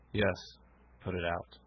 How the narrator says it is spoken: he said at last in a hollow tone

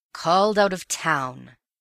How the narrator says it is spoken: he grumbled

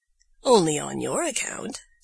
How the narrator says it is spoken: said the fox, in a whisper

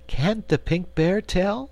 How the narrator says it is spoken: asked Cake anxiously

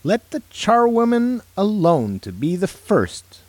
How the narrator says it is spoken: cried she who entered first

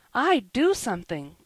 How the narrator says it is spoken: blurted out Joel, sturdily

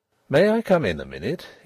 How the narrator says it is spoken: he asked, in a purely business tone

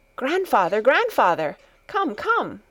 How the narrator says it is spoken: Heidi called out

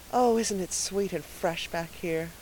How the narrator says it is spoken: breathed Anne

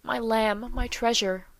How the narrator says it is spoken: murmured the loving though rugged sire

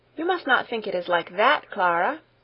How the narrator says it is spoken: replied Heidi eagerly

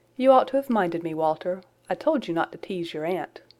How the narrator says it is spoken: his having said, in a vexed tone of voice

